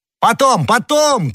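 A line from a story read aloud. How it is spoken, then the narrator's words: Shouted. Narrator (Russian): крикнул ему Д'Артаньян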